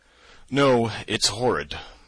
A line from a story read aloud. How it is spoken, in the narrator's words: I yawned again